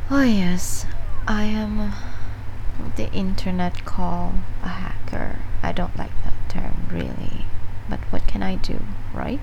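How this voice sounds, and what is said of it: Foreign accent. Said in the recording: “from my accent, you clearly have figured out that I'm not from your country”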